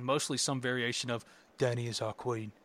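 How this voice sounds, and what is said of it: Imitates a fictional character's voice. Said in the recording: “it's not a bad Jon Snow impression.”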